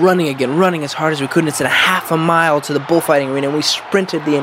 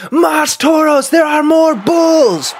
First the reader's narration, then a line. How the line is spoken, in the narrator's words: someone yelled